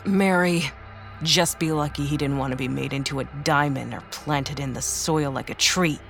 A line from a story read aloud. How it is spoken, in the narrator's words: she snapped